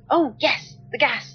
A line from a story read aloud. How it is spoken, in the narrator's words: he exclaimed absent-mindedly